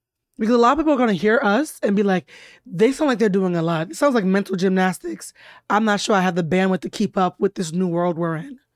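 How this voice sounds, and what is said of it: Hoarse, weakened voice. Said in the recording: “lost my voice”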